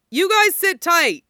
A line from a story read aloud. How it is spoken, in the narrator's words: he yelled to Bucky and Steve as he ran